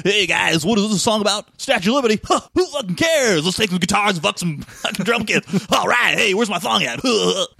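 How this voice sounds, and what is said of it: Imitates another person's voice. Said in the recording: “my Diamond Dave impression.”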